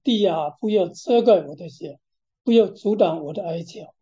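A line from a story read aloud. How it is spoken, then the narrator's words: Lamenting. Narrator (Chinese): 发出哀叹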